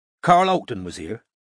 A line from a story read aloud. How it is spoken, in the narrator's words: said Strike sharply